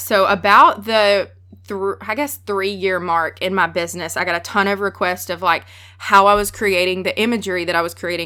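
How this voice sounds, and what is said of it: Strong Southern US accent. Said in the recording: “I'm from the South. I have a really strong accent.”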